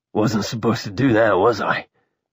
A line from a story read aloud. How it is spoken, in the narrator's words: Halston croaked